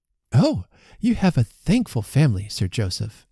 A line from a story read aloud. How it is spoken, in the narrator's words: cried his wife